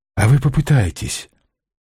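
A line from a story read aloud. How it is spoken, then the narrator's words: Quiet plea. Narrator (Russian): тихо попросил парень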